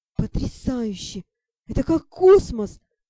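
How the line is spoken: Breathless. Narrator (Russian): выдохнул Шон

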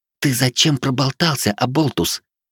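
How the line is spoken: Whispered shout in ear. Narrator (Russian): шепотом прокричала мне на ухо Вилея

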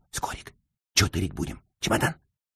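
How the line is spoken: Whispered question. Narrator (Russian): Михейка шепотом спросил

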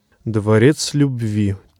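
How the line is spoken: Quiet. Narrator (Russian): тихо вымолвил он

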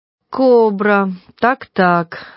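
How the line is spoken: Absent-minded drawl. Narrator (Russian): рассеянно протянул тот, не слушая

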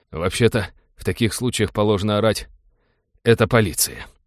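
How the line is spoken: Weary reproach. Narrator (Russian): устало упрекнул капитан

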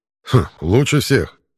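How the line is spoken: Snorting grunt. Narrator (Russian): хмыкнул Картер

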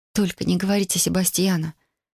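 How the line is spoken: Quiet unhappy plea. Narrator (Russian): тихим несчастным голосом попросила я

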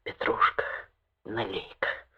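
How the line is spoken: Curt, passionate whisper. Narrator (Russian): Шепотом, отрывистым и страстным, сказал кабачику

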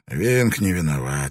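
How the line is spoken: Weary. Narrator (Russian): сказал Ван Нек устало

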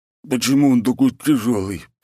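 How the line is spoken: Wheezing hoarse voice. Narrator (Russian): просипел здоровяк

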